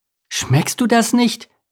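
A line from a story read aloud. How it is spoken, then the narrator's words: Excited reply. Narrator (German): entgegnete Lars aufgeregt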